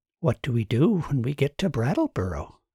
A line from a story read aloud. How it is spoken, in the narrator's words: Heather asked quietly